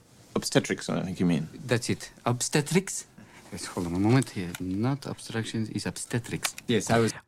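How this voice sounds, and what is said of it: Muted, not very convincing Russian accent. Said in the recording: “he's playing the comedic Russian ... Which means you would turn the accent up ... I don't think it's turned up enough ... almost sounds too American ... It's a little bit more muted ... I just don't think it's like that good of an accent”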